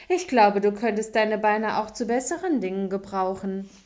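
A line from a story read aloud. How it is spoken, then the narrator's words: Laughing. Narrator (German): lachte der Hase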